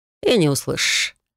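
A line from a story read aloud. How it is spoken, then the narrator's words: Snort. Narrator (Russian): хмыкнул Трей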